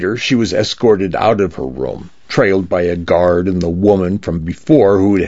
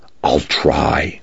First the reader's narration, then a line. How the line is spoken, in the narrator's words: she whispered